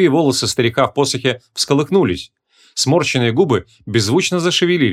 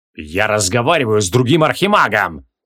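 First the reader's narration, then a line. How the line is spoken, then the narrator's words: Growling. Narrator (Russian): зарычал Креол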